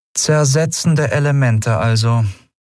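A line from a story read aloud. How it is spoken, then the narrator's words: Flat toneless voice. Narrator (German): sagte sie schließlich mit tonloser Stimme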